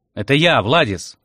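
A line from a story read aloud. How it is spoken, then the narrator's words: Loud reply. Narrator (Russian): ответил громко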